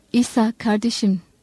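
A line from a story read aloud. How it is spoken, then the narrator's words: Plain. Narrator (Turkish): dedi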